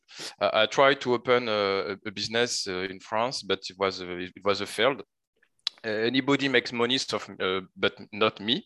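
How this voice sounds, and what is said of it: Strong French accent. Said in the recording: “I have a strong French accent”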